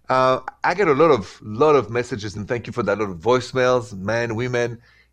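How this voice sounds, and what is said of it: French accent. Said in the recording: “I'm ... in French. That's where the accent is from.”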